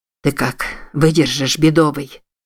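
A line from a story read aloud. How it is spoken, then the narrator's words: Tense, hoarse question. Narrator (Russian): спросил Чарльз напряженным, охрипшим голосом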